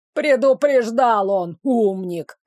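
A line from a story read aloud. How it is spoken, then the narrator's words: Grumbling. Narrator (Russian): проворчал третий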